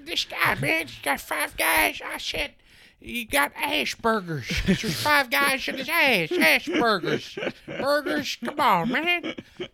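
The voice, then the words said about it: Joe Biden impression. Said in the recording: “I kind of feel like a Joe Biden now ... stop doing your Biden impression.”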